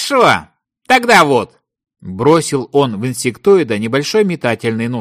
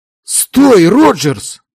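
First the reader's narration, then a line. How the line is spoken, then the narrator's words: Angry old friend. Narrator (Russian): сердито произнес его старый друг Дейл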